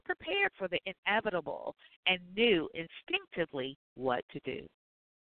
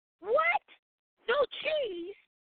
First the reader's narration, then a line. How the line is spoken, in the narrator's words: Tim yelled